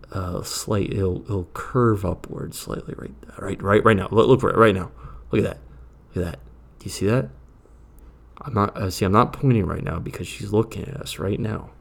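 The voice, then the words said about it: Whispering. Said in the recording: “she's wondering why I'm whispering right now”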